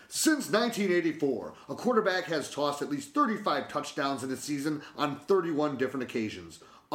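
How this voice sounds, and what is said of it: Radio announcer voice. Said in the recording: “in my Mo radio voice”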